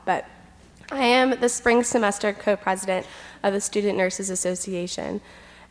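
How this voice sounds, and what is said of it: Congested, sick-sounding voice. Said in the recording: “I have a cold, so I might cough a lot.”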